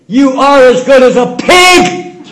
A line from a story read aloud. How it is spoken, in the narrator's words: He shouted